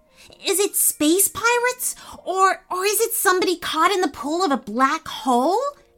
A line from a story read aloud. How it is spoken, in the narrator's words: asked eagerly